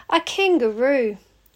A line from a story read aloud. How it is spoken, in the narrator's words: Aussie lets out a sigh